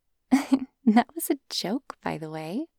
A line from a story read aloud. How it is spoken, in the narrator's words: she said, giggling again